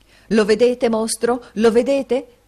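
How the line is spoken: Shout. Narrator (Italian): gridò

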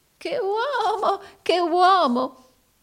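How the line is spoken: Forced amusement masking anguish. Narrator (Italian): esclamò Arturo Gride, affettando, nello strazio della sua tortura, di divertirsi molto

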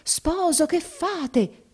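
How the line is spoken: Shouting. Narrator (Italian): gridò

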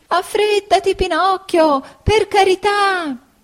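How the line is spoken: Bleating goat shouting. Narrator (Italian): gridava belando la bella caprettina

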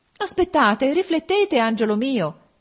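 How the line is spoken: Mother exclaiming. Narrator (Italian): esclamò la madre

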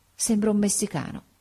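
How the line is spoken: Murmured. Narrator (Italian): mormorò

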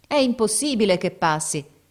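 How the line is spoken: Crowd shouting from below. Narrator (Italian): gridava la folla di sotto

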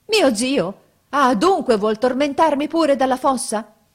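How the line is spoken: Shouted. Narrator (Italian): Gianni gridò

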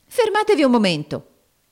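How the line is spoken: Exclaiming. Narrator (Italian): esclamò Nicola

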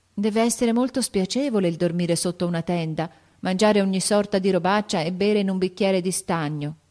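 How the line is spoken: Sighing. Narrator (Italian): sospirò Amy

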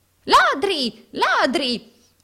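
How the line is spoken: Moneylender's shriek. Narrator (Italian): strillò l'usuraio

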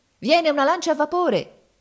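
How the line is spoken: Alarmed shout. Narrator (Italian): gridava uno di noi avvistando il nemico a distanza

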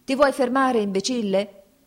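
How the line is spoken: Shout. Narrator (Italian): gli gridò un quartiermastro

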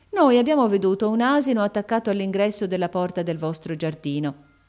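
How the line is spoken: Plain. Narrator (Italian): disse allora Nureddin

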